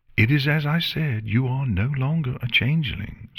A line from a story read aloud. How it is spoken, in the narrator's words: Celestia replied